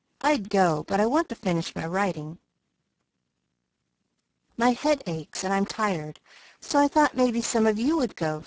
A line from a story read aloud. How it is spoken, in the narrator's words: said Beth